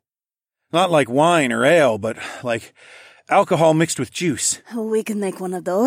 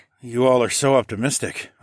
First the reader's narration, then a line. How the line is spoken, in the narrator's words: I grunted